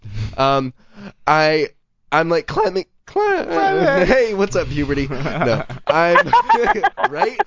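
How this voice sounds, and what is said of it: Voice rising to a higher pitch. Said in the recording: “your voice went up ... that little voice going up right there was very charming”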